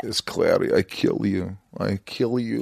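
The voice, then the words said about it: Put-on Transylvanian demon accent. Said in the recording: “Can I have an accent? ... I could talk like this. Everything like this. I'm the demon from Transylvania.”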